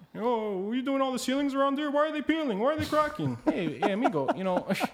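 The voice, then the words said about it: Imitates another person's voice. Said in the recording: “That's a good impression of a creature.”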